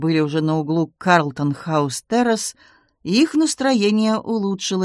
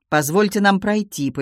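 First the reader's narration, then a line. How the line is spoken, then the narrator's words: Commanding demand. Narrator (Russian): повелительным тоном потребовала Таппинс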